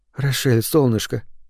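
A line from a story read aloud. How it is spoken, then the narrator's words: Soft. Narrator (Russian): мягко сказала Рошана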